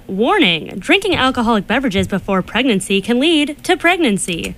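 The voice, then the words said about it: Polished radio announcer voice. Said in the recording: “You have a radio voice.”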